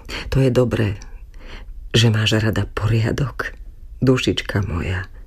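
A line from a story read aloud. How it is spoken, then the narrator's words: Broken whisper. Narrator (Slovak): Prerývaným hlasom zašepkal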